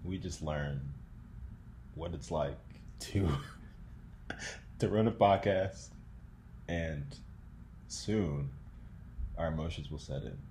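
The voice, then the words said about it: Dramatic true crime narrator voice. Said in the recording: “Why are you doing the true crime voice?”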